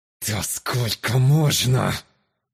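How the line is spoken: Angry, through teeth, accented. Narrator (Russian): Злобно процедил смуглокожий сквозь зубы, немного коверкая слова из-за южного акцента, характерного почти для всех выходцев из султаната

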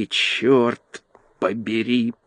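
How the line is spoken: Groaning. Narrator (Russian): простонал он

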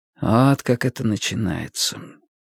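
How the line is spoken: Quiet. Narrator (Russian): тихо сказал Уинстон

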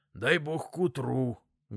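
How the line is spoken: Sorrowful sigh. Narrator (Russian): горестно выдохнул он

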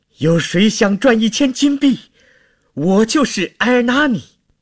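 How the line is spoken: Desperate shout. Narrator (Chinese): 在绝望中 大叫着

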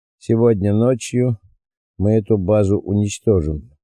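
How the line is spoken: Calm. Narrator (Russian): спокойно произнес Малькольм

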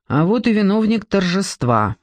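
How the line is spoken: Angry. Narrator (Russian): сердито сказала она

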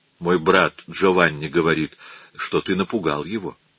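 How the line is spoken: Soft. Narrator (Russian): она мягко сказала Микеланджело

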